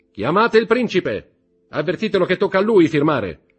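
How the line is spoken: Shout to a waiter. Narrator (Italian): gridò Danglars ad un cameriere

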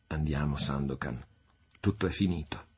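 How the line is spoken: Murmured. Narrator (Italian): mormorando

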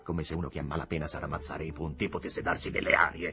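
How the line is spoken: Growling. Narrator (Italian): ringhiò il signor Higginbotham

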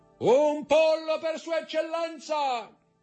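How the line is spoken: Brigand shouting at full volume. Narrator (Italian): Il brigante, che si chiamava Peppino, si voltò e gridò con tutta la forza dei suoi polmoni

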